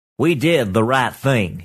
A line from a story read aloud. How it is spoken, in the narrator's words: he said